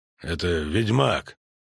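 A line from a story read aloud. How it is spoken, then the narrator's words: Grumbled mutter. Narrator (Russian): буркнул Нагорн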